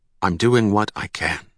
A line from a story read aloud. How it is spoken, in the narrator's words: he said